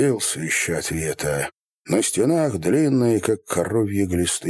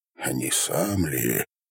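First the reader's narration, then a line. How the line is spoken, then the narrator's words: Whisper. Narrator (Russian): прошептал Степан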